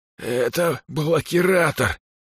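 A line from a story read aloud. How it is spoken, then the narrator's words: Rasping wheeze. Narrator (Russian): прохрипел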